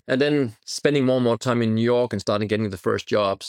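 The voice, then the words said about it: Foreign-accented English. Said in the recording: “with my name and my accent”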